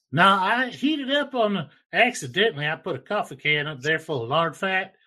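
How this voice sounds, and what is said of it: Speaks with a noticeable accent. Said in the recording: “you got a sexy accent”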